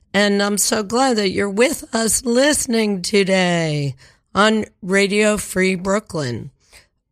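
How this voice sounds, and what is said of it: Congested, stuffy-sounding voice. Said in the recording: “I've got a little bit of a cold. It sounds bad, but it sounds worse than it...”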